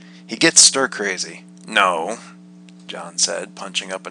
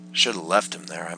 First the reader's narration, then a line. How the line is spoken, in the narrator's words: I muttered